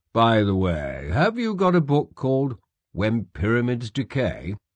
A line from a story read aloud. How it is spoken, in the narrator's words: he said in a carefully casual tone